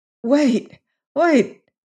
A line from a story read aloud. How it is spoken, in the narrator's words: he cried as if calling